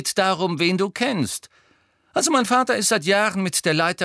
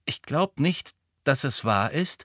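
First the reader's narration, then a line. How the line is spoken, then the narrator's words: Quiet interjection from behind. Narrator (German): warf Neville leise von hinten ein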